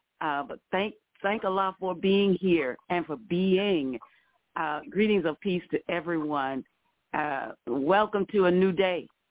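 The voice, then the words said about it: Slightly raspy voice. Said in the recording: “my voice is a little raspy this morning”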